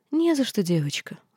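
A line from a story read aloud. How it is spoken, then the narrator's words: Gentle, kindly woman. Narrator (Russian): ласково ответила бывшая принцесса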